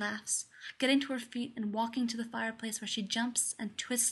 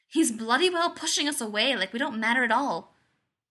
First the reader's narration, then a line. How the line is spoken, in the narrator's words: Ron snaps